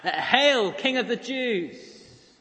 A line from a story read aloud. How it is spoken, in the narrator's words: the laughs, the taunts